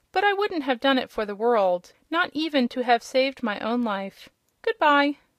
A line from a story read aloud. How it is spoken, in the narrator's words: said Rob, laughing